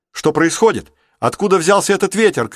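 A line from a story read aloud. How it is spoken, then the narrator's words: Shout. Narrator (Russian): крикнул Рик с палубы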